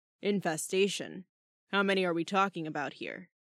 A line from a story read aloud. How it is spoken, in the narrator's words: Shark rumbled, sounding dubious